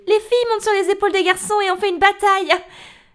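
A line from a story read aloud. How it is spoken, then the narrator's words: Yelled. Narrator (French): Paloma, qui pèse 30 kilos toute mouillée, va hurler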